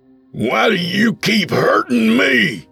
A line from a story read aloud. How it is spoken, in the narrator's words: he roared